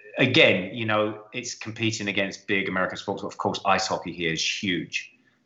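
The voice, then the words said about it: English accent. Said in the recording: “as we can tell from your accent, you're not from Canada ... You're from England”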